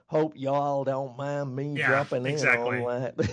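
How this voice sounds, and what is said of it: Put-on blue-collar Southern drawl. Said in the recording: “a bit of the southern accent ... kind of a southern southern ... very, drawl ... very blue collar”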